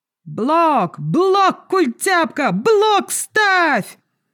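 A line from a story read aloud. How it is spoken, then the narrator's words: Young man yelling. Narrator (Russian): орал какой-то парень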